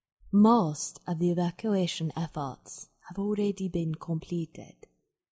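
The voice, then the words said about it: A well-done put-on accent. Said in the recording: “nailed the accent, loved it.”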